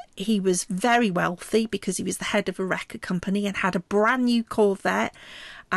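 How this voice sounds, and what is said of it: British accent. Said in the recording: “I've got, you know, sort of a British accent”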